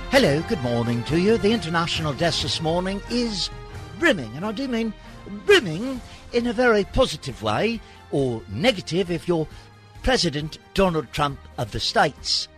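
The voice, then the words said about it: Put-on British newsreader accent. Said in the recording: “I'll do it with a British accent, like Peter Jennings.”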